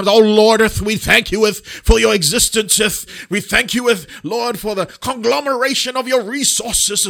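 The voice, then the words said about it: Put-on British King James prayer voice. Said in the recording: “there's a British accent all of a sudden. There's a King James sort of emergence of the 1618 English”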